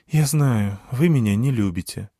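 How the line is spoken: Sighing. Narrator (Russian): вздохнула Калидия

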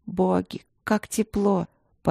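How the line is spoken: Moaning, tearful. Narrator (Russian): она застонала, смаргивая слезы

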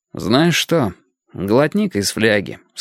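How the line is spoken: Calm. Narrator (Russian): сказал я спокойно

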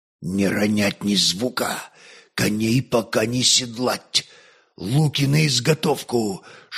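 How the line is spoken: Whispered commands. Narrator (Russian): шепотом передавались одна за другой команды Свинельда

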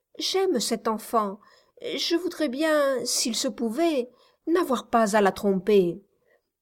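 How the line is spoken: Stammering young woman. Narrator (French): balbutia la jeune femme

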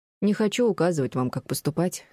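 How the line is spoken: Plain. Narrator (Russian): ответил Жюль

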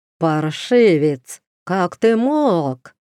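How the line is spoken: Booming rich contralto. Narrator (Russian): прогремела она своим сочным контральто

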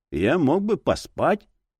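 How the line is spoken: Muffled dull voice. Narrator (Russian): голос детектива звучал глухо

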